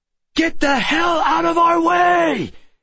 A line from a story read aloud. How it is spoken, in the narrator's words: I shouted, giving it one last try